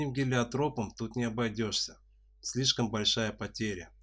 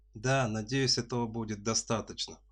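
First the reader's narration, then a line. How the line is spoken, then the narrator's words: Sighing young woman. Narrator (Russian): вздохнула девушка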